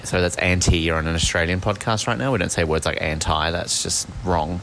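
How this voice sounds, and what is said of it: Australian accent. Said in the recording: “you and your Australian accent”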